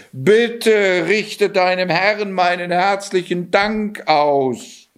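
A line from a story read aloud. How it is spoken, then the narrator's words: King calling out. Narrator (German): rief der König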